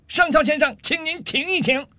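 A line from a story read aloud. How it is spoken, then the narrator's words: Furious loud shout. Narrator (Chinese): 上尉气得涨红了脸，冲着上校的方向大声喊道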